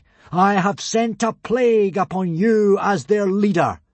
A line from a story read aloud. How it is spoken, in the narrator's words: boomed Hiccup solemnly